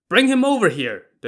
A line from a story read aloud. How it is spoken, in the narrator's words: the general shouted